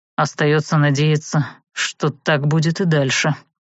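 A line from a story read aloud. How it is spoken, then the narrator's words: Grumble. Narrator (Russian): буркнул тот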